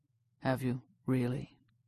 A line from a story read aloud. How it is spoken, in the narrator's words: asked so softly